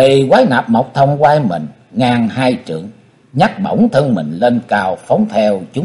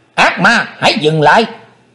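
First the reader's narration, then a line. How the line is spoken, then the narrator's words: Shout. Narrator (Vietnamese): tiếng quát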